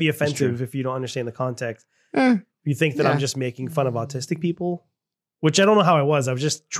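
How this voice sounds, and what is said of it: Usual voice. Nothing is said of it.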